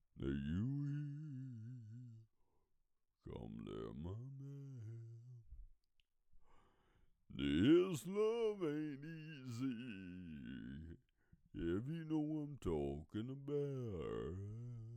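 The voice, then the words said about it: Sung southern drawl. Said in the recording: “While I'll sing this with my southern drawl.”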